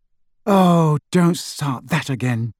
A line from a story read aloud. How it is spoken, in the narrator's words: sighed Hermione